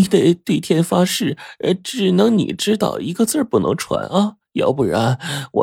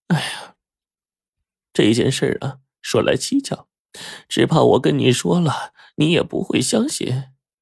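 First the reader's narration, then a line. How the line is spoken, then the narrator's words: Sighing old woman. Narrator (Chinese): 张老太 叹了口气说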